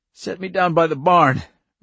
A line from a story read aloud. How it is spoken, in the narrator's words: Irv gasped